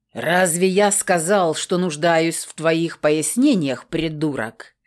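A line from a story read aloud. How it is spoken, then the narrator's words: Growled. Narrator (Russian): зарычал на него Крор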